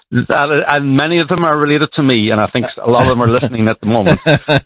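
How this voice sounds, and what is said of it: Non-American accent. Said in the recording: “as you probably can hear from my accent, I'm not from around your part ... We got some people that talk like you on the south side of Chicago”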